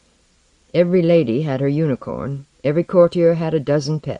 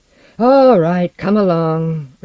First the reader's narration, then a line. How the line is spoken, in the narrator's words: Ricard told her, but his voice was cold